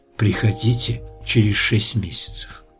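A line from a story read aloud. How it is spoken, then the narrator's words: Whisper. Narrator (Russian): прошептала она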